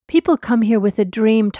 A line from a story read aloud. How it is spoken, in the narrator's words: Tucker said